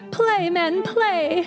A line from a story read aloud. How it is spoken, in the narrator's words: cried the widow